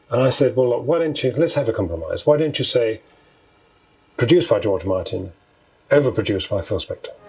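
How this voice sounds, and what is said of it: Gentlemanly British accent. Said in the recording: “in a gentlemanly British accent”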